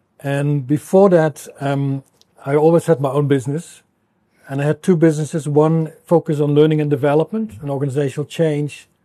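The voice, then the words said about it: Dutch accent. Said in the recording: “My accent gives me away. I'm Dutch. So that will be forever clear that there's an accent.”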